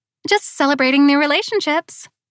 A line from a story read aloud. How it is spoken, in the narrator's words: Amber said cheerfully